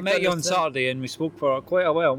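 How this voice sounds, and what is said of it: Scottish accent. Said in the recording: “So your accent is basically Scottish? ... Yeah, it's Scottish, yeah. ... That's a Scottish accent?”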